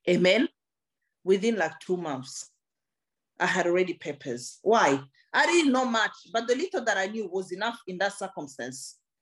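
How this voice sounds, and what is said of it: Non-native English accent. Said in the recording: “It might come with a bit of a funny accent,”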